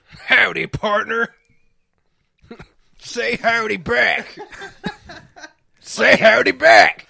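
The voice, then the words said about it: Put-on cowboy accent. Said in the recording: “he's doing the cowboy accent... You do the cowboy accent.”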